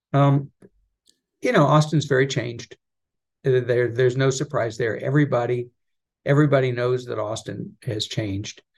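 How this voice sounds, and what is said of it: Strong Texan accent. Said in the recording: “your accent sounds much more Texan than it did when I used to see you in New York ... it did come back pretty strong”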